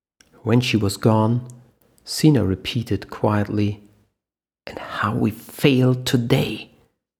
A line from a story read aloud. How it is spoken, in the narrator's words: Mac whispered back, an emptiness in his eyes